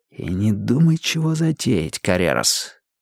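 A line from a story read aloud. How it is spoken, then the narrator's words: Quiet words. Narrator (Russian): тихонько сказал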